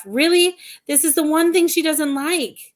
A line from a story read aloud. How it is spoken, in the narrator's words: exclaimed